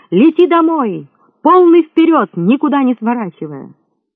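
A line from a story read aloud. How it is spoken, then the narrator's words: Loud cry. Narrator (Russian): громко вскрикнул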